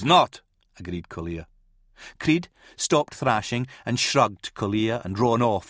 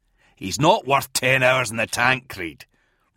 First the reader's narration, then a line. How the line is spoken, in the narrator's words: Rowan growled